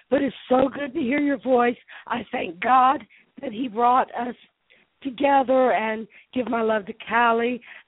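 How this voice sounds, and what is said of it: Hoarse, congested voice from illness. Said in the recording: “I've got laryngitis. I've got a head cold”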